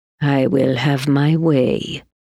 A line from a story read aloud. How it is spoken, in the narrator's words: she muttered